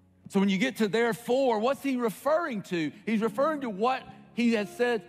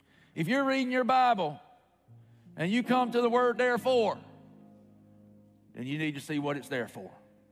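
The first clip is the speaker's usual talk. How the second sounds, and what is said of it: Put-on preacher voice. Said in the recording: “that's my preacher voice.”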